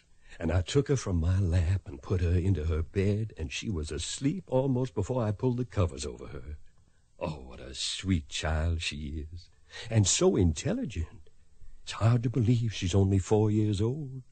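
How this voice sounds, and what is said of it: Kentucky Southern accent. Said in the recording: “she just loves the way you talk ... I'd lose my Kentucky accent, but I can't seem to do it ... It's charming.”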